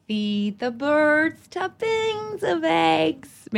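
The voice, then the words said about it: Put-on American accent, singing. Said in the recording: “I'll do it in my American accent.”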